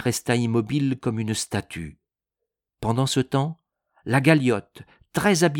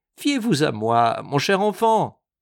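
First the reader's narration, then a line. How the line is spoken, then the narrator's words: Cheerful reply. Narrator (French): Il répondit gaiement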